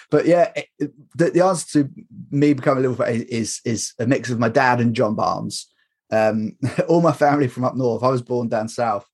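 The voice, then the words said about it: Northern English accent. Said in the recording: “my accent, I'm not from Liverpool. Someone of my age and my accent should support, you know, Man United, really. Like a lot of people that grew up around here.”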